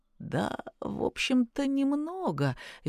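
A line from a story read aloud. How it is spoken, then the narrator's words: Guilty forced words. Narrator (Russian): виновато потупившись, выдавил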